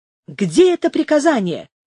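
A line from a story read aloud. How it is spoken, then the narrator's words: Angry exclamation. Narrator (Russian): воскликнул алькальд, бледнее от гнева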